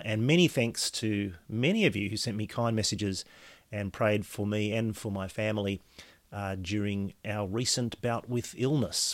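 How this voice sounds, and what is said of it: Slightly hoarse, coughy voice. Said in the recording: “hear in my voice from time to time during this podcast that I'm still a little bit hoarse and a bit coughy”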